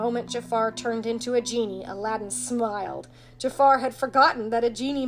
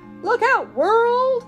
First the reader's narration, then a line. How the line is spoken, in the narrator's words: exclaimed the genie